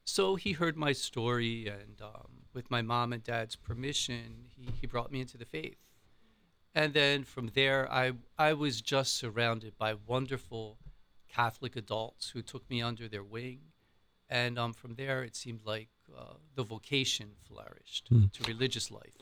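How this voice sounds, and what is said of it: Philadelphia accent. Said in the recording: “Right outside of Philadelphia. ... you can probably hear the accent. Which I've tried to get rid of and I can't.”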